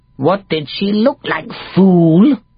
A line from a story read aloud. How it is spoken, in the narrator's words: snarled Warty